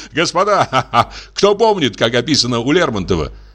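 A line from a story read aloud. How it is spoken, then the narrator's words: Laughing question. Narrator (Russian): спросил фон Горн, смеясь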